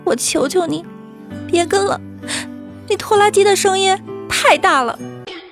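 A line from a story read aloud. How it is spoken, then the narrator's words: Crying on the phone. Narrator (Chinese): 他给李大脚打过电话，哭着说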